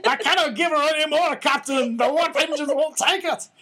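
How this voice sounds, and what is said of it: Horrible put-on Scottish accent. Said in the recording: “it's where I get all my Scottish is from old episodes of Star Trek ... try your Scottish accent ... whip out the horrible Scottish accent”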